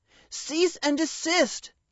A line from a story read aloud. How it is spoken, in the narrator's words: Gilbert shouted